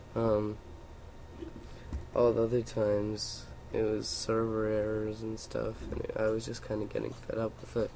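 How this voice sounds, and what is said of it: Voice in bad shape. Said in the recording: “my voice is really, bad right now”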